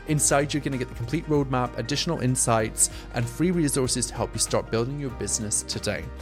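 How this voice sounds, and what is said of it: Strong noticeable accent. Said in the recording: “if my accent is too much and it's too hard work”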